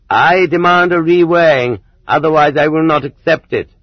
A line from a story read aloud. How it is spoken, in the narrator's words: the dissatisfied prisoner declared loudly